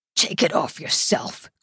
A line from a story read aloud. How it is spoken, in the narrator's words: croaks Blanco